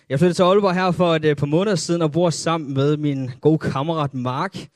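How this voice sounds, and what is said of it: Slight North Jutland Danish accent. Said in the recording (Danish): “jeg kommer fra en lille by, der hedder Stenum. Så hvis jeg har lidt accent ... sådan vi taler deroppe”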